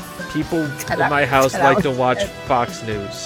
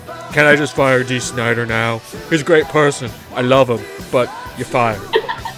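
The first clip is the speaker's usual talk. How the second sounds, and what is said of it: Donald Trump impression. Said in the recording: “Your impression of Trump is really good.”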